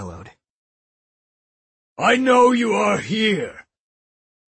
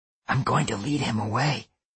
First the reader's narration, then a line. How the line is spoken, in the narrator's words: I whispered